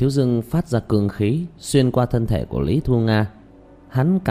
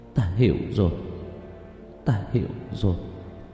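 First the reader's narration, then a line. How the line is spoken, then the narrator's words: Muttering. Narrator (Vietnamese): Lý Thu Nga lẩm bẩm nói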